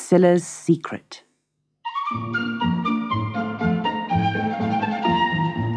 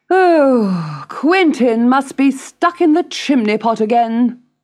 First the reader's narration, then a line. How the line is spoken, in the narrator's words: sighed Miss Priscilla